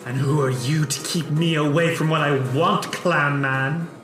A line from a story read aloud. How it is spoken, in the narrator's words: Baleni hisses, her wings flapping, and says